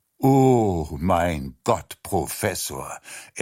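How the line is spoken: Sighing. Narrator (German): er seufzte

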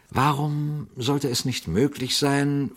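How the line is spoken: Quiet question. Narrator (German): fragte Pater Braun leise

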